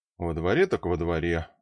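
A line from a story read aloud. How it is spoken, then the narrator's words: Sighing. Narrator (Russian): вздохнул я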